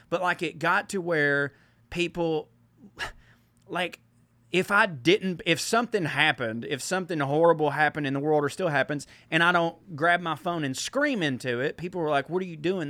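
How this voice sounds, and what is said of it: Redneck accent. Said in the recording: “just because you're a redneck or have this accent”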